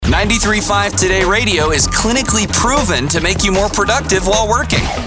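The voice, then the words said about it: Announcer-style radio voice. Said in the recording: “Radio Voice Guy”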